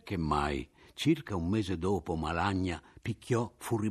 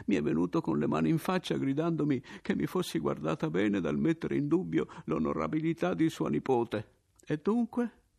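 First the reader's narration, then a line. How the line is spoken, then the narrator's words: Bitter laughter. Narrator (Italian): dissi io, ridendo acre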